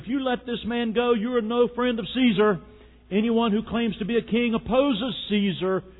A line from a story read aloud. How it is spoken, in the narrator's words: the Jews kept shouting